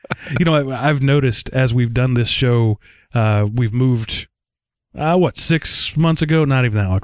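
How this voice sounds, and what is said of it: Texas accent. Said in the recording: “my accent is thicker. My Texas comes out more when I get tired at the end of a long day.”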